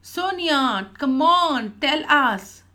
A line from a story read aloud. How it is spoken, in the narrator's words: Jens shouted in unison